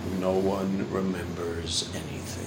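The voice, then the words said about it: Imitated deeper voice. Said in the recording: “as my brother says in a deeper voice than mine”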